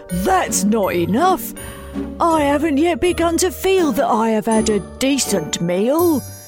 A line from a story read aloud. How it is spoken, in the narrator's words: Wolfie wailed